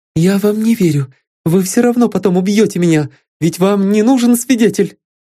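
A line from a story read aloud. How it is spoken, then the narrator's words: Timid question. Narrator (Russian): робко спросила Вероника Альбертовна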